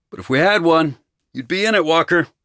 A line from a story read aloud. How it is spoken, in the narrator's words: I yelled to him